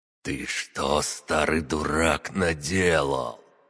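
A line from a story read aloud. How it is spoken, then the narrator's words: Hissing, as if close by. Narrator (Russian): шипение словно говорили рядом со мной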